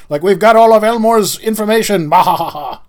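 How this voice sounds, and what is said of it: Generic evil villain voice. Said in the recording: “It wasn't any sort of accent, just generic evil guy.”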